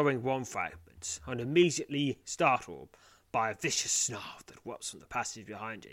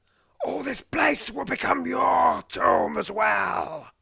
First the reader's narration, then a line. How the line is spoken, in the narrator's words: He snarls